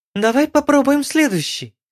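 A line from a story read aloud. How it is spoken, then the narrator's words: Cheerful voice. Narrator (Russian): сказала веселым голосом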